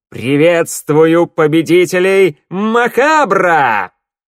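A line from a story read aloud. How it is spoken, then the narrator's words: Loud echoing exclamation. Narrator (Russian): громко, так что эхо взлетело до потолка, воскликнул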